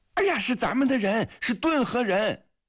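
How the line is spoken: Loud shout. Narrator (Chinese): 季科夫大声地叫

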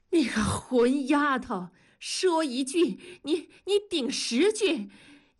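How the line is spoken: Furious breathless shout. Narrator (Chinese): 早已怒火攻心，一口气上不来，直倒气儿，喊道

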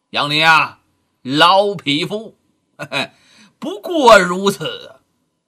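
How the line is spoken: Sneering. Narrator (Chinese): 面带冷笑啊

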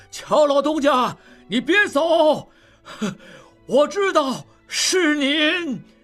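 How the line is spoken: Old man calling out. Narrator (Chinese): 摆渡老人仍在喊

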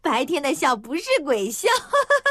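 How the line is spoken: Laughing. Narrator (Chinese): 邱莹莹看见了，笑道

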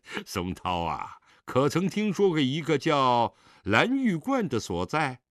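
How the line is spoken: Laughing. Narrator (Chinese): 狄仁杰笑道

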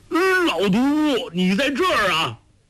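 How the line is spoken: Startled cry. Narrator (Chinese): 周伯通惊叫

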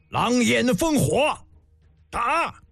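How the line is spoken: Roaring shout. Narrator (Chinese): 胡杨大吼一声

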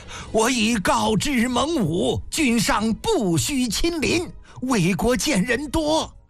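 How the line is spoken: Loud. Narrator (Chinese): 李斯高声道

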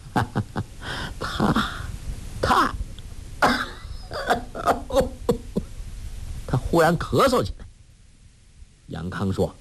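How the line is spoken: Laughing. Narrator (Chinese): 笑道

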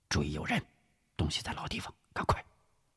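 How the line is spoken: Low voice. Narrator (Chinese): 吴石低声说道

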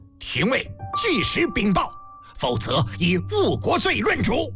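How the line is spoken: Furious roaring. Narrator (Chinese): 嬴政勃然大怒，一连声吼叫着

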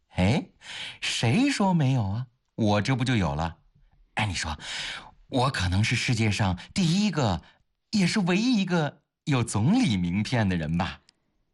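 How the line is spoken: Delighted chuckling. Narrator (Chinese): 如获至宝地笑呵呵地

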